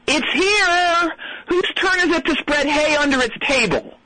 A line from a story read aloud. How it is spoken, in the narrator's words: one of the staff yell